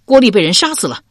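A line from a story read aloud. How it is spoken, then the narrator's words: Loud shout. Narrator (Chinese): 只高叫道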